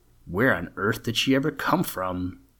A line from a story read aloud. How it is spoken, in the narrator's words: Lynn exclaimed